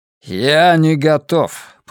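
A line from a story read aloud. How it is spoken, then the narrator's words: Grumbling. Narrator (Russian): пробурчал Гаррет Стронг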